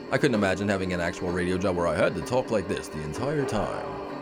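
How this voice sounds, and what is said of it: Exaggerated radio announcer voice. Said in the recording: “the golden voice of podcasting ... That's my radio voice.”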